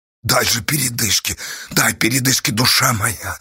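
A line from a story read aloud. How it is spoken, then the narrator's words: Breathless wheeze. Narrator (Russian): Задыхаясь, просипела Асташа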